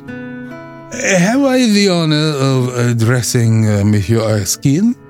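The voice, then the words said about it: Slight French accent. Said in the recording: “in a slight French accent”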